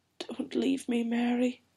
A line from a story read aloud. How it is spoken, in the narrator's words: whispered